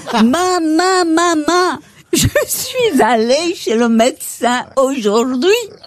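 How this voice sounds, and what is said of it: Put-on Belgian French accent. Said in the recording (French): “c'est l'accent belge”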